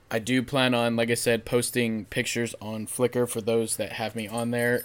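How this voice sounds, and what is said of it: Hoarse, worn-out voice. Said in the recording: “my voice is kind of gone from yelling yesterday”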